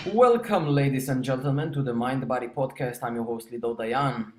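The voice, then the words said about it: Jewish accent. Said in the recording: “with the sexy Jewish accent”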